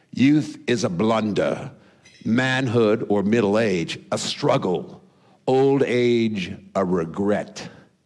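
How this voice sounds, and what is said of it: Put-on British accent. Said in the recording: “I'll do it in my best British accent I can”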